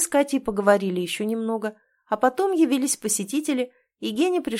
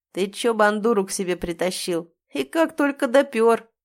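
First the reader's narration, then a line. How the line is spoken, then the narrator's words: Laughing, coughing. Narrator (Russian): Он засмеялся, заперхал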